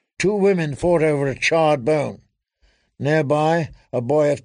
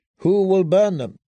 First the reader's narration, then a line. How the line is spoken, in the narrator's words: asked Sir Barristan